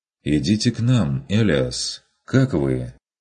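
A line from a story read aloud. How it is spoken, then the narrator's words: Inquiring. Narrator (Russian): осведомился он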